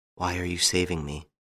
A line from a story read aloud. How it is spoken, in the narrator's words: He whispered